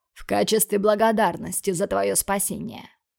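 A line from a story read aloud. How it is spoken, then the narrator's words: Snorting remark. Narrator (Russian): хмыкнул он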